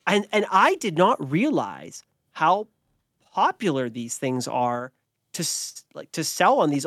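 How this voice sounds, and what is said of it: Usual voice. Nothing is said of it.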